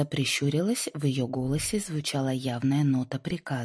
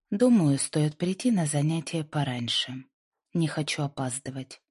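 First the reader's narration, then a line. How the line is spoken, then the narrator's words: Calm reply. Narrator (Russian): спокойно ответила Линда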